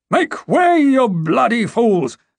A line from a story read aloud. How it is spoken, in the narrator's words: Sir Luther roared